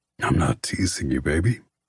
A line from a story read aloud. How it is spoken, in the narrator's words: he says in a throaty voice